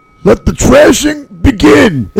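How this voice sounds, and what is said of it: Imitates another person's voice. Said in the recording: “my cheap Macho Man impersonation”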